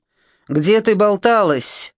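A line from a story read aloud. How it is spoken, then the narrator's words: Menacing question. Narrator (Russian): грозно спросил Борис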